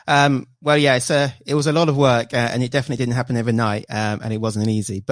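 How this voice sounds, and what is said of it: British English accent. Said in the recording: “I'm from the UK, if you can't tell from the accent”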